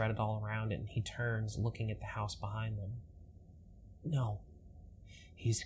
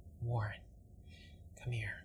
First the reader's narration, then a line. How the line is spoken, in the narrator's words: Edward says quietly